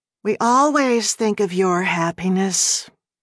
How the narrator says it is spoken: Darcy sighed

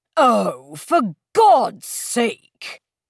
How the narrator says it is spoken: Dunford exclaimed

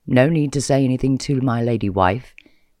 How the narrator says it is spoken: say evenly

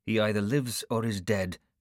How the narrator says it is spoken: said curtly

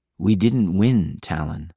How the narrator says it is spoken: Thayrin said softly

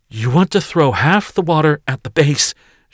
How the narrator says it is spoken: she gasped

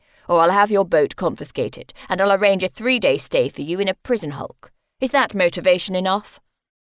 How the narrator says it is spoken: Grant said curtly

